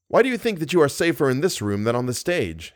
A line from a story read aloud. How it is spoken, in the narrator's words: asked Raoul